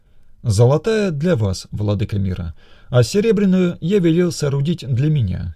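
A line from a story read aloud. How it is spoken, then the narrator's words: Plain. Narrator (Russian): ответил Бербал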